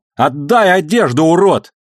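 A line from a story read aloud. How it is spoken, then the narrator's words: Exhausted shout. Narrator (Russian): Выбившись из сил, женщина крикнула в замочную скважину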